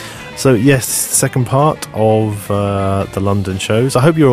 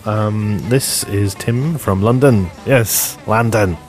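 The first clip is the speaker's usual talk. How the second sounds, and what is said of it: Australian-sounding accent. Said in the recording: “sound Australian”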